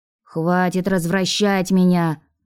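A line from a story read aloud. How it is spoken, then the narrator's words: Grumbling from below. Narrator (Russian): Пробурчал снизу Леон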